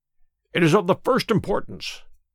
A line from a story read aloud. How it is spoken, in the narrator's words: he cried